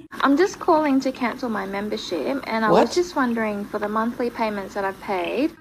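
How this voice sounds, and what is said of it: Australian accent. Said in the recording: “This is how her Aussie accent used to sound.”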